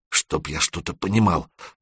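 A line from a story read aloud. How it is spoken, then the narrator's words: Mutter. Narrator (Russian): пробормотал Серега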